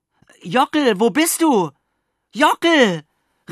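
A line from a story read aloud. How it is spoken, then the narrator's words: Desperate call. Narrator (German): rief ich verzweifelt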